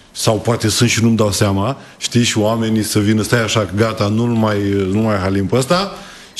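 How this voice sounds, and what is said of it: Slight regional Romanian accent. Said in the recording (Romanian): “Ți-ai păstrat accentul, n-a plecat cu totul. ... Și este un farmec, mie îmi place. ... accentul în Buzău ... partea Moldovei ... avem o leacă”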